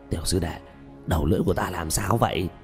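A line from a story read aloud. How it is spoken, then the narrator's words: Hoarse question. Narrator (Vietnamese): dùng âm thanh khàn khàn hỏi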